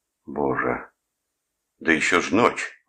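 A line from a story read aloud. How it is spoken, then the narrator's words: Exclaimed. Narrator (Russian): воскликнул он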